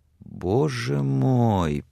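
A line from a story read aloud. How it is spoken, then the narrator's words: Whisper. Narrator (Russian): прошептала Сексон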